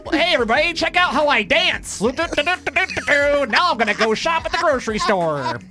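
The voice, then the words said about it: Exaggerated stereotypical white guy voice. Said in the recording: “My super, super white guy voice ... if you watch Def Comedy Jam and they make fun of white people's voices, that's your voice ... I'm the voice that the comedians use”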